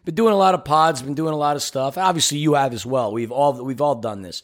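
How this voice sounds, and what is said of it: Hoarse, tired voice. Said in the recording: “As you can hear, my voice is kind of hoarse.”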